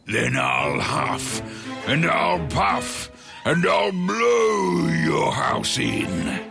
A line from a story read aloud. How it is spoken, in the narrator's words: The wolf could see that the house made of sticks was not very sturdy, so he growled and bellowed